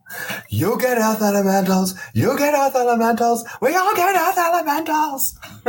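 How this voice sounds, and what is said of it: Oprah Winfrey impression. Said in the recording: “you think ... was impersonating Oprah?”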